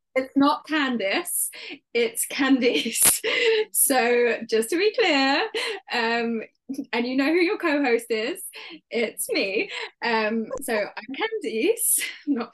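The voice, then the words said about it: British accent. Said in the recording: “I have a British accent, which is very different to Kerry”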